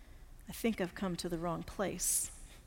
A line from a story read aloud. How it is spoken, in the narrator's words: he murmured under his breath